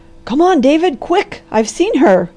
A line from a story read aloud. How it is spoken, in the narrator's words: cried the doctor